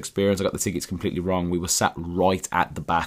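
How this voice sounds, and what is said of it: Hoarse, strained voice. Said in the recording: “You can probably hear my voice that I've lost my voice. ... that's when my voice is,”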